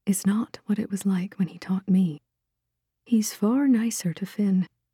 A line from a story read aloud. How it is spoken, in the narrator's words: she said softly